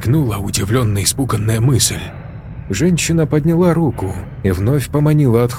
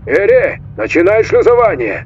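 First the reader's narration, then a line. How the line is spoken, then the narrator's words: Almost shouting. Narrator (Russian): Почти закричал он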